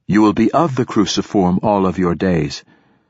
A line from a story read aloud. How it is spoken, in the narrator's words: said Alpha